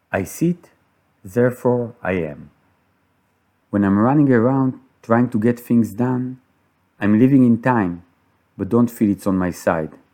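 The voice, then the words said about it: Israeli-accented English. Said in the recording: “my strange Israeli accent”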